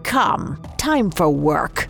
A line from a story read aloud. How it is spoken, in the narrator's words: old man snarled the words